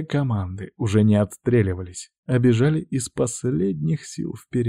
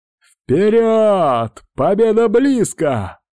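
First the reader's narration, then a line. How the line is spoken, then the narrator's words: Shouting. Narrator (Russian): прокричал Сергей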